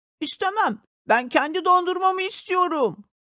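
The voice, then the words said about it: Child's voice shouting angrily. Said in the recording (Turkish): “Diye bağırdı.”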